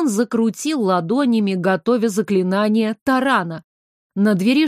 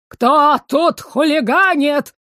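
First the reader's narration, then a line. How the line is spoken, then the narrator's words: Indignant yell. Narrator (Russian): завопил он негодующе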